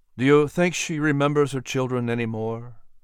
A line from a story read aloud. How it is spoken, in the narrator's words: Patrick asked